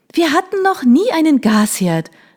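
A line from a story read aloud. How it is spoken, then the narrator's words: Calling out. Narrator (German): rief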